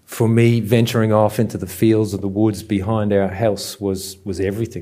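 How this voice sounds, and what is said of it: Irish Dublin accent. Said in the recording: “I'm not from these parts, hence the dodgy accent. I grew up in Dublin”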